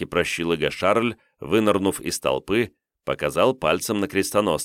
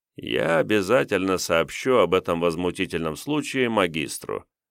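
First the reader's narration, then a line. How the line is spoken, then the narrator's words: Bored voice. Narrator (Russian): скучным голосом произнес принц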